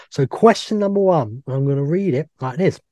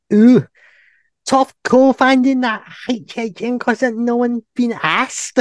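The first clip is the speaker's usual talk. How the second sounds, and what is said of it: Poor put-on Scouse accent. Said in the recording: “That's a terrible Scouse accent.”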